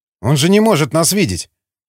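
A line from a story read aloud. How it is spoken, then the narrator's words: Muttered. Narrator (Russian): пробормотал Эмиль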